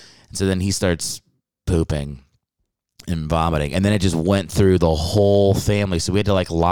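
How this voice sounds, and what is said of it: Usual voice. Nothing is said of it.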